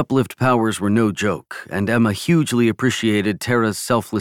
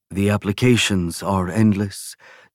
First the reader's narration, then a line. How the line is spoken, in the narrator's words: Timo Fiori sighed